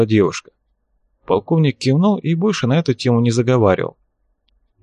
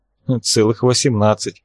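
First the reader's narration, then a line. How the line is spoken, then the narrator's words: Laughing. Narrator (Russian): засмеялась Берг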